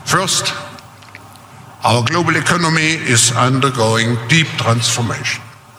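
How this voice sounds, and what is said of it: Very thick foreign accent. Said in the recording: “your accent is too thick to be real ... Do you have to sound like a Bond villain? ... you're putting extra affectation on your accent”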